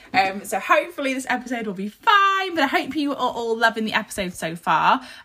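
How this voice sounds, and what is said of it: Croaky, husky voice. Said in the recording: “my voice is a little bit croaky. I have had a sore throat ... any croakiness, any husky voice”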